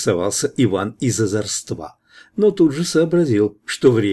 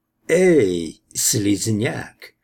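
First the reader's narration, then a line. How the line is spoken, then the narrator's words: Creaky alien voice. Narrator (Russian): проскрипел средний негуманоид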